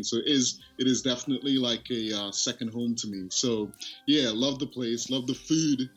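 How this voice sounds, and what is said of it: Pleasant British accent. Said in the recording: “your accent ... this nice British accent ... UK British guy on the line right now talking all good”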